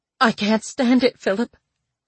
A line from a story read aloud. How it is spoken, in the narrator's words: choked